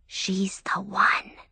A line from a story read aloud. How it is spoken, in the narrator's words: one of the ladies whisper